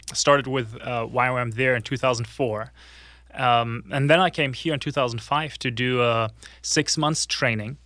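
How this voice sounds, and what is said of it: German accent. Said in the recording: “the accent is German”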